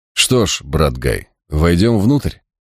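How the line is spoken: Utterly unflappable tone. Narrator (Russian): произнес я самым невозмутимым тоном

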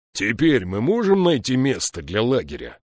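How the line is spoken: Growl. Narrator (Russian): прорычал Слудик

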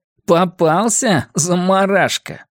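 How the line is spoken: Laughing. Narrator (Russian): Фредди Дентон рассмеялся

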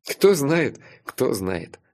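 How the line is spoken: Laughing. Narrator (Russian): рассмеялся я

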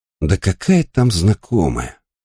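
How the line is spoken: Sighing. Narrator (Russian): вздохнул Райдл

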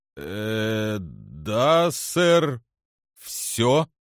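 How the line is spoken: Strained, forced words. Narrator (Russian): выдавил он

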